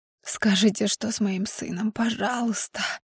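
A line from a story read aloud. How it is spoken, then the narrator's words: Hoarse rasp. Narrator (Russian): Хриплю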